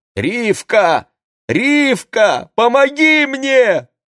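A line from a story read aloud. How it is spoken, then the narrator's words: Loud shout. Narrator (Russian): громко крикнул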